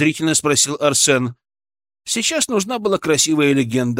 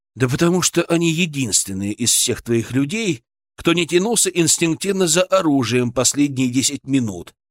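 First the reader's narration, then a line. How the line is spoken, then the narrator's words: Calm, confident. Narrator (Russian): сказал спокойно и уверенно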